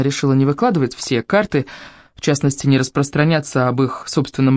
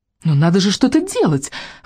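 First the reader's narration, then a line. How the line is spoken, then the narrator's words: Exclamation. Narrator (Russian): воскликнула она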